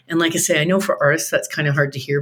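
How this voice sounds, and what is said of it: Smooth, polished radio voice. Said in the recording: “your beautiful radio voice”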